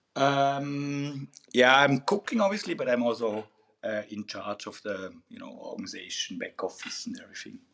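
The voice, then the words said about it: Swiss German accent in English. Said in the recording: “by your accent, you're Swiss native? ... Swiss born and half German ... slightly pronunciation, like Swiss style”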